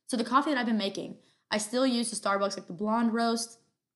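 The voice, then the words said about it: Very fast, energetic speech. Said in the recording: “I'm talking so fast. ... I am just amped up on energy right now”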